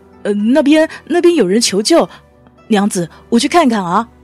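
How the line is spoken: Embarrassed stammering. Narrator (Chinese): 段流生红着脸，结结巴巴的说

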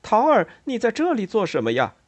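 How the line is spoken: Happy exclamation. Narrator (Chinese): 西蒙高兴地叫起来

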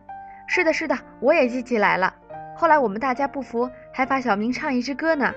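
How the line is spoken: Shouting. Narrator (Chinese): 小德又嚷着说

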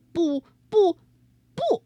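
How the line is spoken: Loud. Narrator (Chinese): 他对着镜子大声说

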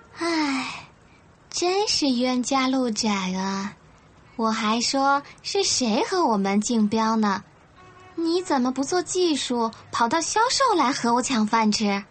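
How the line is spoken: Sighing. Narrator (Chinese): 朱宁丽叹了一口气

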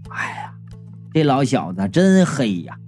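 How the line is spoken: Sighing in unison. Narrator (Chinese): 我和卖鱼的异口同声的叹道

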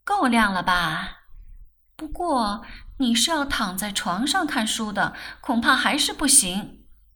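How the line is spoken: Laughing. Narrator (Chinese): 曼桢 笑道

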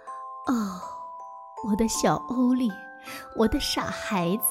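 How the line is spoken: Soft gentle voice. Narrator (Chinese): 妈妈轻声的说

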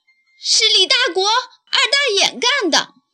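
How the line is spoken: Angry. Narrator (Chinese): 皮卡非常愤怒

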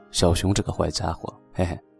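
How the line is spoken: Smiling voice. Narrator (Chinese): 小兔子的脸上立刻恢复了笑容，说

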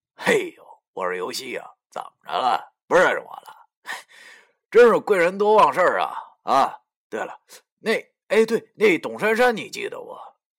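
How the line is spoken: Calm, cold sneer. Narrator (Chinese): 我也不生气，继续冷笑着对他说

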